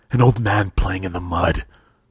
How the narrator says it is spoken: Amala snapped

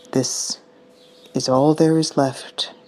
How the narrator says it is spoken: mutters Juhuri

